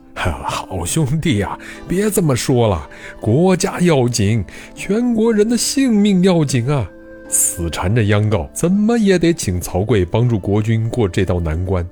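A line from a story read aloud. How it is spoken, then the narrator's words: Placating smiling tone. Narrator (Chinese): 师伯陪着笑脸说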